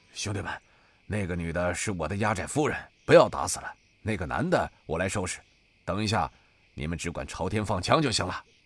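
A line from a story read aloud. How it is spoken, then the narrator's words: Low voice. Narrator (Chinese): 白虎低声道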